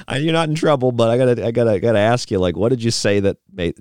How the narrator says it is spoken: she wasn't laughing, but she said,

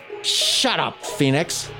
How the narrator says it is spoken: Yat Ho snarled

